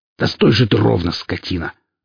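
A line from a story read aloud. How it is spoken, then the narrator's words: Growling. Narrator (Russian): рыкнул Велес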